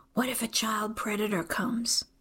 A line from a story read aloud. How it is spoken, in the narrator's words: whispers